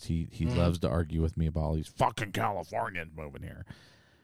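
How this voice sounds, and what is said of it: Imitates another person's voice. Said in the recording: “That's a good Buzz impression. ... I was doing a Buzz impression.”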